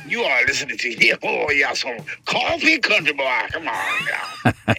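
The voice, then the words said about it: Alter ego character voice. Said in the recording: “can you do the alter ego voice of De Conte? ... say it in that voice”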